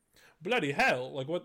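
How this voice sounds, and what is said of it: Bad put-on accent. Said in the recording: “that was my worst accent ever”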